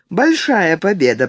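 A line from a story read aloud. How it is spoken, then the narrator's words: Pleased voice. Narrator (Russian): проговорила она довольным голосом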